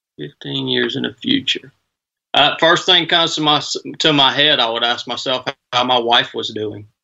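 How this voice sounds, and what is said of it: Southern US Georgia accent. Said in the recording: “born and raised in Northwest Georgia ... This accent, this accent stuck with me all my life, man, and I can't seem to shake it”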